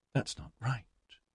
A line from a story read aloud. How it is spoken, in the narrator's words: he muttered